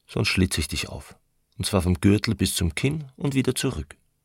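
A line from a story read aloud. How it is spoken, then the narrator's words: Calm. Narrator (German): sagte er ruhig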